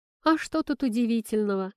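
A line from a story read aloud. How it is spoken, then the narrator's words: Laughing. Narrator (Russian): засмеялся Леша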